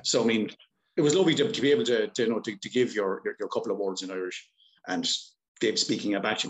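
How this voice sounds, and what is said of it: Strong Irish accent. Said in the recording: “it's almost like an Irish version of English. Because I mean, I go over to England, and you know, people can barely understand my accent.”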